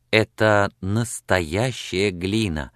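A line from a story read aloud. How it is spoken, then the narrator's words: Timid question. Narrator (Russian): робко спросила Сексон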